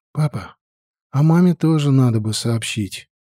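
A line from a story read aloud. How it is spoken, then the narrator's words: Soft speech. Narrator (Russian): тихонько сказала я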